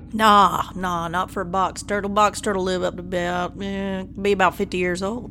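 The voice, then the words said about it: Tennessee accent character voice. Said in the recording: “And the voice? Oh, man. ... how the accents come through, but you're from Tennessee.”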